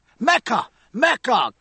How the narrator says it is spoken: cried some voices

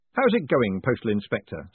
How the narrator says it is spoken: said Moist cheerfully

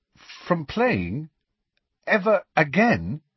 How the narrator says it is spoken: he said, and his voice sounded strangely distant

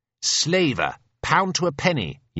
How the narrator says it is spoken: yells our young Nelson

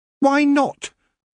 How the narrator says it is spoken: said Tiffany sharply

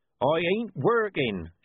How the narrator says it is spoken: shouted Coffin Henry

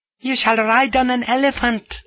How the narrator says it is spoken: squeaks the said Majesty, lapsing from kingly dignity for a moment

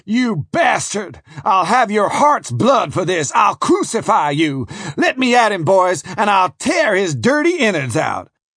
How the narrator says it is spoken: he shouted

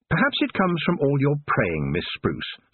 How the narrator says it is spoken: said Tiffany sweetly

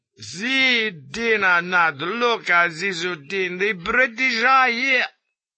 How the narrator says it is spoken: crowing with high-pitched laughter

